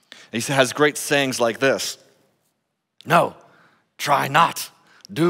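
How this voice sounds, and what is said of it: Usual voice. Nothing is said of it.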